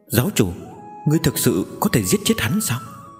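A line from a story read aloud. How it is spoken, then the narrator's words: Soft voice. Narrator (Vietnamese): Giang Mễu khẽ nói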